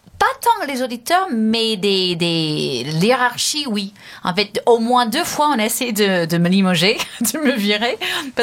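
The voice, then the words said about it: English accent speaking French. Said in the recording (French): “cet accent anglais”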